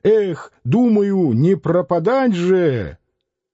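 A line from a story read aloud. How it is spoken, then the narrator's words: Bold daring shout. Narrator (Russian): кто-то удалым голосом крикнул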